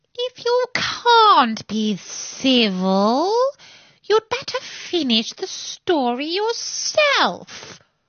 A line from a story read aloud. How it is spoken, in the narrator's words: the Dormouse sulkily remarked